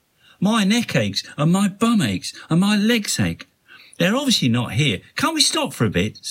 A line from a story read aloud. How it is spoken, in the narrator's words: sighed Naughty